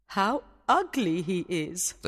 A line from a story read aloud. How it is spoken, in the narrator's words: the queen said